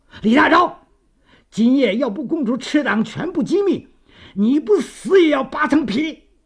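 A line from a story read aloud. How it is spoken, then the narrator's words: Menacing loud roar. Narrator (Chinese): 法官杀气满面地大声地吼叫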